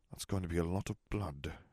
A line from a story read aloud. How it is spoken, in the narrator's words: Harry murmured